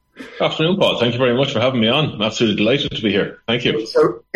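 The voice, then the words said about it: Irish accent. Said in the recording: “you're from Ireland, from your accent”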